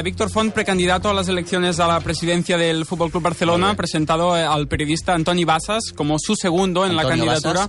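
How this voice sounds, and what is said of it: Catalan accent speaking Spanish. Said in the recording (Catalan): “Intentaré dissimular el meu accent massa català.”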